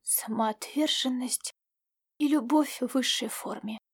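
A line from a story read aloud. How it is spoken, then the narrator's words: Quiet. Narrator (Russian): тихо проговорила леди Луару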